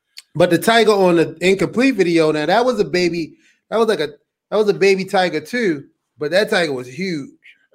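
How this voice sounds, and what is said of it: Strong Baltimore accent. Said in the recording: “Baltimore accent is as strong as ever”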